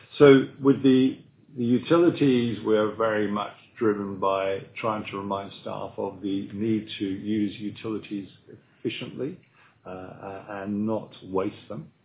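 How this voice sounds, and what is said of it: English accent. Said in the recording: “my accent is not local. I come from England”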